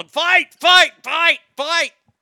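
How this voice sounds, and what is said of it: Yelling. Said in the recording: “I'm yelling”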